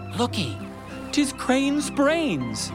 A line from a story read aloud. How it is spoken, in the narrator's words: some cried